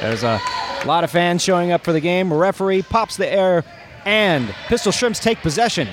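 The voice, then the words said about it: Sports radio announcer voice. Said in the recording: “I have forgotten to apply my Pistol Shrimps radio voice, but there, I've found it.”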